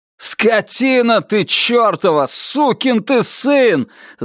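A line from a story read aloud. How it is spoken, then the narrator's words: Yelling at himself. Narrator (Russian): заорал он на самого себя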